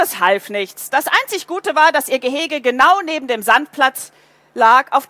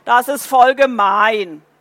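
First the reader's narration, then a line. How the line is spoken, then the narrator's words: Groaning. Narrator (German): Paule stöhnte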